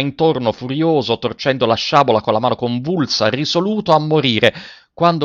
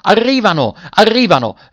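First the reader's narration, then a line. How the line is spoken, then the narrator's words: Joyful shout. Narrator (Italian): ripeté con un grido di gioia il capitano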